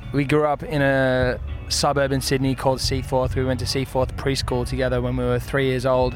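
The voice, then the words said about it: Australian accent. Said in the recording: “because you're Australian. ... If you can't tell from your accent.”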